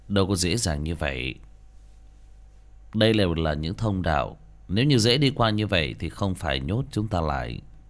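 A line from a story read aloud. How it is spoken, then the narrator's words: Cold laughing. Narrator (Vietnamese): Tường Nguyệt lạnh lùng cười cười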